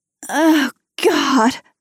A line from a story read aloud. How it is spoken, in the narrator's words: I groan